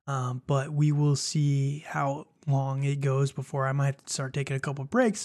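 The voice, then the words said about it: Rough, strained voice. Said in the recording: “My voice is starting to get a little rough, so it's not fully healed yet.”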